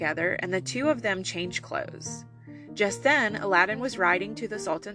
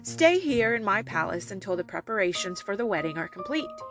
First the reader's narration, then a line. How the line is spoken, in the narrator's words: said